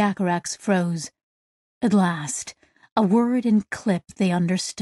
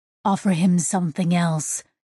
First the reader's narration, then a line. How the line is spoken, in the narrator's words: said Sissek